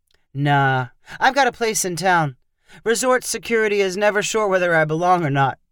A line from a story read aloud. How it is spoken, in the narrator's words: said with a laugh